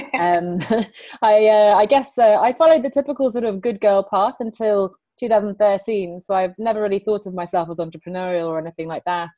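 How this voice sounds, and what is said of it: English accent. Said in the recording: “I grew up here in England, as you can tell by my accent.”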